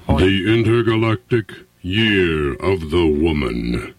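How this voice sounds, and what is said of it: Deep Darth Vader voice. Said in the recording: “Why wasn't I born with a voice like that? ... That's my Darth Vader impression ... Oh, that's very good.”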